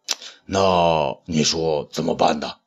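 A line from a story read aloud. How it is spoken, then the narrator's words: Lowered voice. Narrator (Chinese): 东方朔也压低了嗓门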